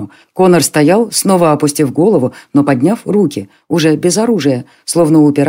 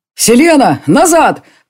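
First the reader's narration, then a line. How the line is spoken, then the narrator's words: Shouting. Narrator (Russian): прокричал маг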